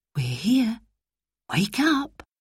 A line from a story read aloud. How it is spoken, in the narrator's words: Mother whispered